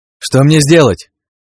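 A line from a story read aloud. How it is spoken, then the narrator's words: Shouted reply. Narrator (Russian): Крикнул в ответ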